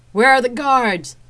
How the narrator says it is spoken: I shouted to be heard above the whistling wind

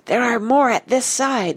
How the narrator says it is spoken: said Nigel, in a piercing whisper from the far edge of the birches

